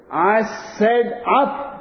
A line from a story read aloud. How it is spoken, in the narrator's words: Paddy shouts